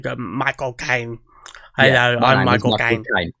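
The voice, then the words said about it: Exaggerated Cockney Michael Caine impression. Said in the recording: “do an impression of him, they just go way too hard into the kind of Cockney accent.”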